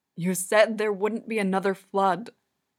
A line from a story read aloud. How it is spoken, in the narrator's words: cries, his voice cracking